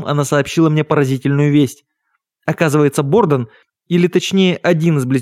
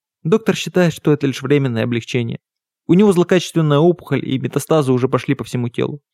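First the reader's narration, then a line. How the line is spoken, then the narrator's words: Sad, calmer finish. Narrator (Russian): Немного успокоившись, она грустно договорила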